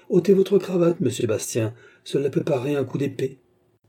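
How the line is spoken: Curt. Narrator (French): dit Armand d'un ton sec

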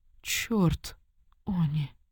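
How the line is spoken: Weak, strained female voice. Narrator (Russian): слабо выдавила фрейлина

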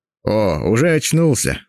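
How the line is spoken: Laughing. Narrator (Russian): засмеялся он

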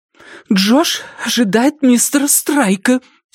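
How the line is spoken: Angry whisper. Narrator (Russian): сердито прошептала Катя

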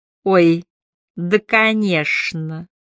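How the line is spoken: Gloating lisp. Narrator (Russian): прошепелявил Брюн, наслаждаясь неловкостью Холма

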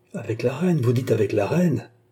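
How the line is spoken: Exclaiming. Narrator (French): s'écria Louis XVI

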